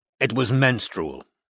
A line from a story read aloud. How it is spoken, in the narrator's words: said Roy coldly